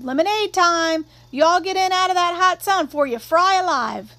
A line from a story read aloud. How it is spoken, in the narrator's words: Calpurnia yelled